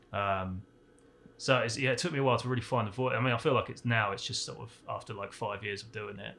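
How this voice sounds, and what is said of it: Strong non-American accent. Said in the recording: “My accent's pretty strong. It used to be a lot stronger. It's died down a lot since moving out here.”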